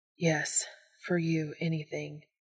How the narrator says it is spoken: Dean murmured into Cass's shoulder, helpless to it

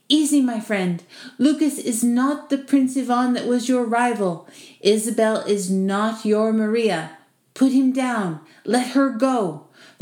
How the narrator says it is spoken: pleaded, torn

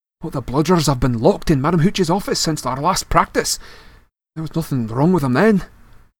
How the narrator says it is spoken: said Wood, anxiously

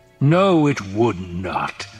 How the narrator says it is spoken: the Baron growled

